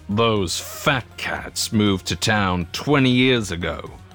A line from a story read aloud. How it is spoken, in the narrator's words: Grandpa Hal spat in the billboard's direction